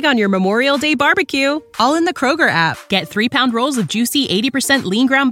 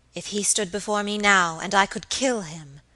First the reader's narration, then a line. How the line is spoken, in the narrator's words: she muttered in a strange inward whisper